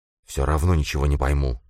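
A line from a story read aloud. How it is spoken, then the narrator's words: Grumbling mutter. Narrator (Russian): буркнул он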